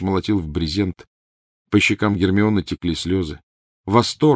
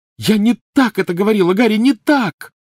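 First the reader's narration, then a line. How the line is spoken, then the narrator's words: Shout. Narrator (Russian): закричала она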